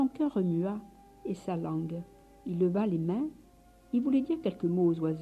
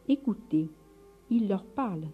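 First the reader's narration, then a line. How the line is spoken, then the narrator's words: Softly sobbing. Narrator (French): dit frère Masséo, qui commençait à sangloter doucement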